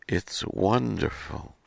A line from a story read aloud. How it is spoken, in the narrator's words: breathed